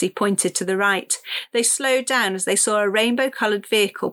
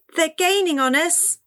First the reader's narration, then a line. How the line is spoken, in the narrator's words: Cassie cried